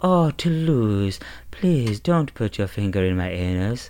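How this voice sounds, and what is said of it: Lilting impression of Duchess. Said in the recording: “Everything just kind of has this kind of lilt to it ... You do a better impression than me”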